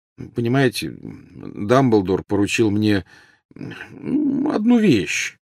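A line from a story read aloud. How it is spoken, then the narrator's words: Mumbling. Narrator (Russian): промямлил Гарри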